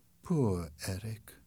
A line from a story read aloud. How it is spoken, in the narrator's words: She sighed and said